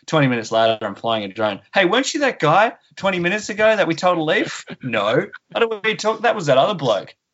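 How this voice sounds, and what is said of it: Australian accent. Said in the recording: “I'm Australian ... same accent”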